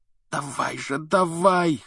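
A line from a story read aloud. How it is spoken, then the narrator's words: Hoarse wheeze. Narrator (Russian): хрипел он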